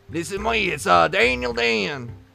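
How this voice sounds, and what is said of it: Redneck hillbilly character voice. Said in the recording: “You just found your redneck hillbilly character.”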